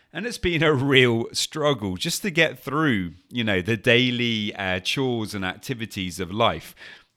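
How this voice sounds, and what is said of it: Sick, flu-affected voice. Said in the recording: “as you can probably hear from my voice today, for the last 2 weeks now, more or less, I've had this really horrible flu bug”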